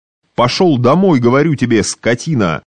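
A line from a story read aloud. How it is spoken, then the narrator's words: Angry shout. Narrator (Russian): закричал, торопясь сорвать на кучере бессильный гнев свой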